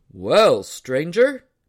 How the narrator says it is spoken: he hailed in a mighty voice that made Joe's ears ring

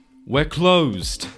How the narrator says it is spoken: yelled over the ruckus

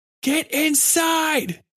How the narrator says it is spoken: he yelled

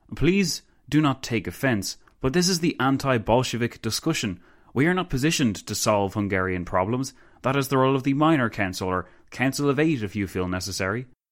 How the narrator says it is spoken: Pilsudski sighed

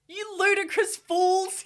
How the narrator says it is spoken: he shouted

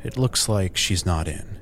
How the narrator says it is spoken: he sighed

